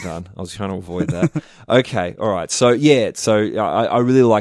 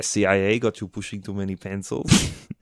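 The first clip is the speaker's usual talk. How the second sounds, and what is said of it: Arnold Schwarzenegger impression. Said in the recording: “you got me to do an Arnold impression”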